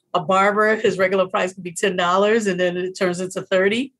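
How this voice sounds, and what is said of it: American accent. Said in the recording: “as for being an American here ... the minute they hear my accent, a lot of people think I'm a millionaire”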